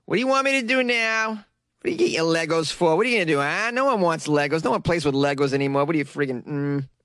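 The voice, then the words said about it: Imitates another person's voice. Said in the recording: “That was an impression of my mother, but it wasn't that accurate.”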